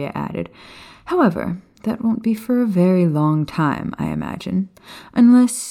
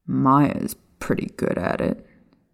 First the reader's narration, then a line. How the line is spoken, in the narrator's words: Sirius said bitterly under his breath, as he remembered the look on her face